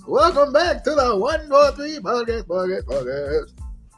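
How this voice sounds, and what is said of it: Screaming, yelling enthusiastic intro. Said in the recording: “Why is you screaming? You sound like DJ Khaled. ... Why am I yelling?”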